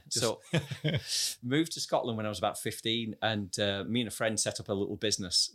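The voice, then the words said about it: Slight Lancashire English accent. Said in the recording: “You're Lancastrian, as we can tell by the accent. ... Ever so slightly, yeah.”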